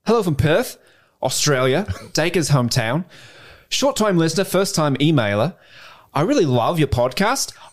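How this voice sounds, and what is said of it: Put-on Australian accent. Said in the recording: “Steve does a phenomenal Australian accent ... Way better than my Irish accent ... I'm going to do this in my best Australian accent. I don't think I do a good one.”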